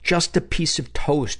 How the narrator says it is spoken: she begged

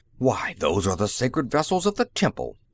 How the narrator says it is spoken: Tamadrav cried, scandalized

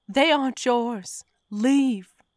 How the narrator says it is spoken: screamed

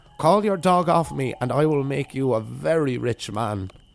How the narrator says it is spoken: cried the old woman

